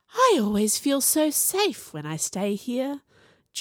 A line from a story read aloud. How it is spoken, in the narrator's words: Juniper sighed